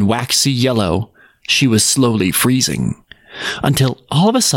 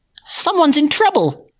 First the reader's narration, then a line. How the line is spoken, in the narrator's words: squeaked the mouse